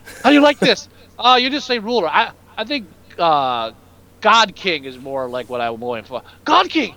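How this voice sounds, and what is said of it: Exaggerated put-on stereotyped accent. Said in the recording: “before my accent gets any more racist”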